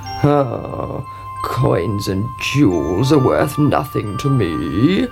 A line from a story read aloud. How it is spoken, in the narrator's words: croaked the frog